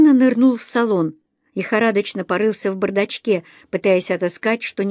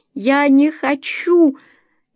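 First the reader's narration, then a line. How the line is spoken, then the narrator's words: Frightened girl's sob. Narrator (Russian): Девушка испуганно всхлипнула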